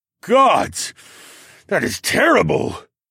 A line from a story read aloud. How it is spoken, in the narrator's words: Gunther snarled